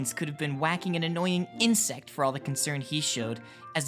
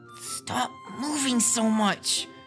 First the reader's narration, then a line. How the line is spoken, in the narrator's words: Link muttered angrily